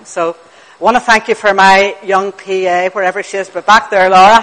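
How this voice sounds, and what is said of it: Northern Irish accent, quick speech. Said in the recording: “So it makes it easier for us to say in Northern Ireland. ... So if you can't make out what I'm saying, or if I speak too quickly ... So hopefully you'll get the accent”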